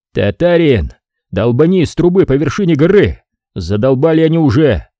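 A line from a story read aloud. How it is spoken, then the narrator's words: Shouted. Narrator (Russian): крикнул я Уралу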